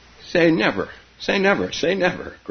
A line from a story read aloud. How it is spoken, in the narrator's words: gurgled Keza, while they lay there laughing